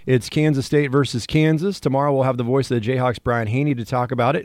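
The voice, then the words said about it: Slightly raspy voice. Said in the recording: “I'm battling a little bit of a raspy throat”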